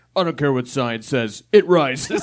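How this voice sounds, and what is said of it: Imitates another person's voice. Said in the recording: “I've never heard a Bryce Harper impersonation... that's accurate”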